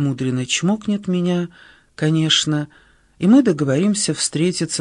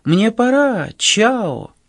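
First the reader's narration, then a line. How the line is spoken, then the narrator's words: Exclaiming. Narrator (Russian): она, как Золушка, воскликнет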